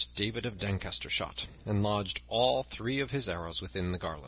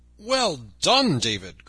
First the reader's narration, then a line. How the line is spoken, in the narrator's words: cried Robin